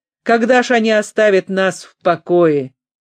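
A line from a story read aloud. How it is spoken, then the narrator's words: Barking shout. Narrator (Russian): Хиллер поглубже вздохнул и гаркнул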